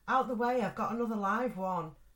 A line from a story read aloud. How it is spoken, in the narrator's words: he yelled